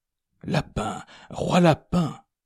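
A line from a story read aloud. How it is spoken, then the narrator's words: Murmured. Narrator (French): murmura-t-elle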